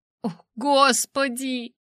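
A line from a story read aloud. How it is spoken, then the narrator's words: Moaning. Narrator (Russian): застонала я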